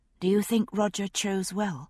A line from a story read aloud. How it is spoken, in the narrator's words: I asked quietly